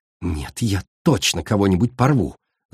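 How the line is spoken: Growled. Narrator (Russian): зарычала

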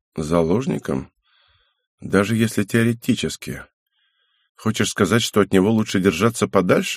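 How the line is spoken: Sad young man. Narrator (Russian): грустно заметил парень

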